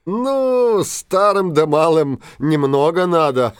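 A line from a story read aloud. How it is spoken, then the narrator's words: Laughing. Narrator (Russian): засмеялся старшина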